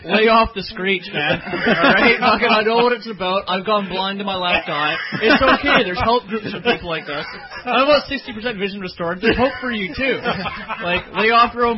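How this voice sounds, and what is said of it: Newfoundland accent. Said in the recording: “talking about UFOs on a Newfie accent”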